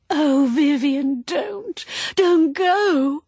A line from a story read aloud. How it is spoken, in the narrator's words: It was quite a wail